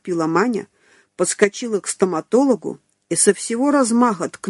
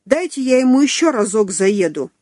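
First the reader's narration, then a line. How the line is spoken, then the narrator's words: Yelling. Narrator (Russian): орала Маруся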